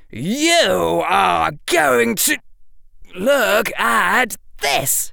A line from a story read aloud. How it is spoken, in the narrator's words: shouted Harry